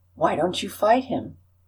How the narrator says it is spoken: one murmured

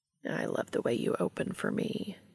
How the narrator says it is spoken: Cass murmurs, sounding entranced

